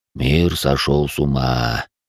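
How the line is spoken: Mutter, male. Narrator (Russian): пробормотал он

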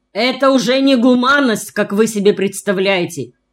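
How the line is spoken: Shouting like a rally speech. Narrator (Russian): кричал он, будто выступал на митинге перед толпой

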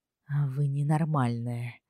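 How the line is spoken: Quiet. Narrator (Russian): тихо заключил он

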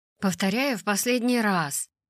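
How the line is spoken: Grumbling. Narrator (Russian): проворчал я

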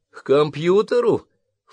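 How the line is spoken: Snorting. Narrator (Russian): фыркнула Карен

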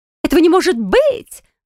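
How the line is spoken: Woman's shriek. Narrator (Russian): взвизгнула женщина

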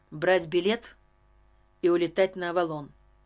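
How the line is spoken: Sharp answer. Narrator (Russian): резко ответил Карл

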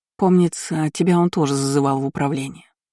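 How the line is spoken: Gloomy reminder. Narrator (Russian): мрачно напомнила Кейра

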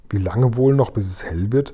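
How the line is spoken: Whispering. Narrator (German): flüsterte Sophiechen

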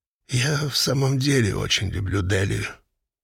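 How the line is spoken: Soft tremulous voice. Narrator (Russian): негромко сказал он с трепетом в голосе

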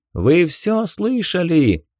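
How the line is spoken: Loud shout over battle. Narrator (Russian): громко прокричал Хиро, пытаясь перекричать рев битвы вокруг

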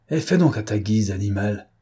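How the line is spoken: Exasperated growl. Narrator (French): grogna le sous-chef exaspéré

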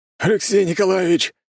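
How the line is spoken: Shouted. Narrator (Russian): крикнул мне Григорий

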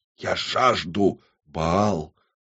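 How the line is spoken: Whispered. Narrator (Russian): прошептала она

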